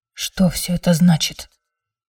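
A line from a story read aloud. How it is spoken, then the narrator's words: Whisper. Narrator (Russian): прошептала Манона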